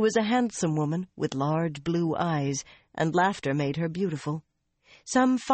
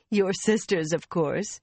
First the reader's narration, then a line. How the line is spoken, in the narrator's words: Suranda laughed